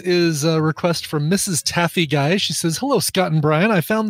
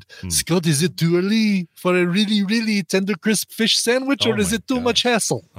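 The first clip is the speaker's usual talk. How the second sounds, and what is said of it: Put-on French accent. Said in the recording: “say this in a French accent”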